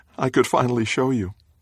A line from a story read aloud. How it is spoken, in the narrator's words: laughs